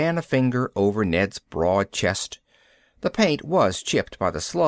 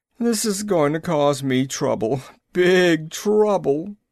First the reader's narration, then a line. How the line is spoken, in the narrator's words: the chief wailed